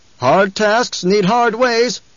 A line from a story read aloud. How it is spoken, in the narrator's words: someone shouted